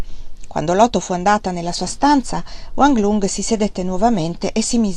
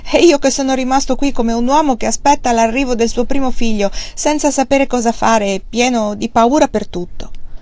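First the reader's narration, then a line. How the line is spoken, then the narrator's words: Laughing speech. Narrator (Italian): Allora anche Wang Lung rise, si alzò e batté le mani, poi rise ancora e disse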